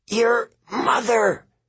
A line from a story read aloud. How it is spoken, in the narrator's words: Annabeth grunted